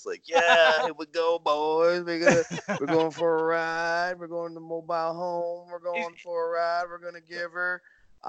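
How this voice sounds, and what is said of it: Put-on wrestling gimmick voice. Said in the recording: “I like your gimmick voices. I feel like I should be doing a gimmick voice. ... I'm not going to be able to keep that up”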